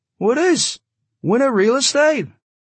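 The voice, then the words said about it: Slight Yiddish accent. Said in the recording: “He had a slightly Yiddish accent.”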